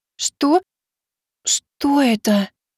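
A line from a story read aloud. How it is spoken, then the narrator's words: Enchanted breathless exhale. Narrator (Russian): Зачарованная прекрасным видом выдохнула Миваки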